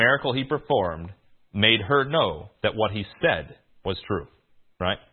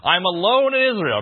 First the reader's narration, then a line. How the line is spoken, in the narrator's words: he said, he cried in the cave